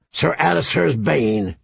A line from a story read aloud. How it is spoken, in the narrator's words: he grunted